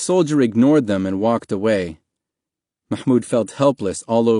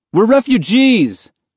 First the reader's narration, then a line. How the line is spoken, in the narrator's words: Mahmoud yelled, unable to stay silent any longer